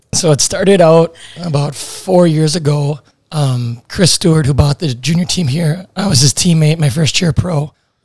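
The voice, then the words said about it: Noticeably bad, worn-out voice. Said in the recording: “Wow, my voice is bad. Really bad. ... It's like different because you can hear it. ... Those poor Loons players that were getting screamed at this whole time.”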